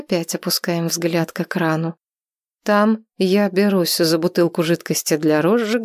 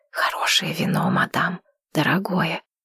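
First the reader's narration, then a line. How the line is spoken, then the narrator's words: Whisper. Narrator (Russian): Зейнеп шепотом говорит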